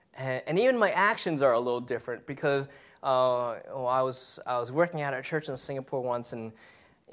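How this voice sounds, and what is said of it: American accent. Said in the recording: “I speak, you know, with a very American accent.”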